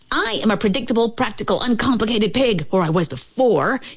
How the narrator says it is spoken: he yelled

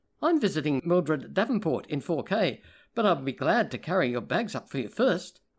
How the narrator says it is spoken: said brightly

